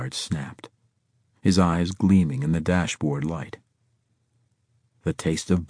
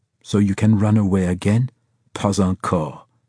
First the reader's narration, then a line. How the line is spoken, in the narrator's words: he growled